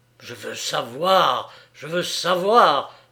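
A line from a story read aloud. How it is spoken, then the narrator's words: Menacing growl. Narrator (French): gronda-t-il d'un ton mauvais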